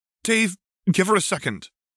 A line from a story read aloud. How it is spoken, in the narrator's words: Jade snapped back